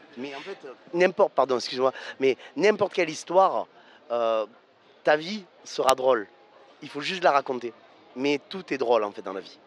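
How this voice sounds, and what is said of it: Provençal French accent. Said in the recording (French): “j'entends un accent ... je suis un Provençal, et j'ai jamais voulu enlever mon accent”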